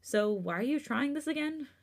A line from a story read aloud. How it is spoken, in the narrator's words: He chuckled